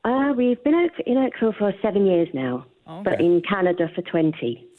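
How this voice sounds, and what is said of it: London English accent. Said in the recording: “Oh, I love the accent. Where are you from? London.”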